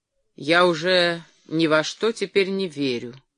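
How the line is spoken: Gloomy, after a pause. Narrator (Russian): наконец ответил он мрачно

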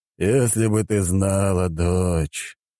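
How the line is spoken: Heavy sigh, old man. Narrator (Russian): тяжело вздохнул старик

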